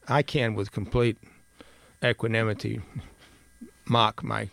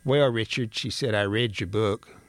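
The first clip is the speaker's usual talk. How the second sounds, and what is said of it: Imitates another person's voice. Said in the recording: “excuse me for imitating my cousin Jeanette”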